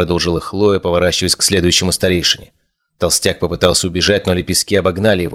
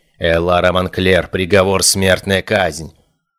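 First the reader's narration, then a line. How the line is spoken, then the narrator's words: Cold young woman. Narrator (Russian): холодно произнесла девушка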